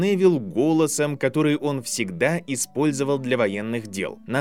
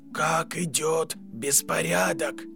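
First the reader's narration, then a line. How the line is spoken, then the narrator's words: Mock dry whisper. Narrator (Russian): спросил Гарри, подражая сухому шепоту императора Палпатина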